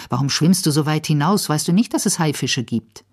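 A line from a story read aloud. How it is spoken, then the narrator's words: Angry. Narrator (German): sagt zornig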